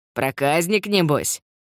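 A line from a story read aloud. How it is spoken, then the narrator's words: Approving giggle. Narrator (Russian): Брат одобрительно хихикнул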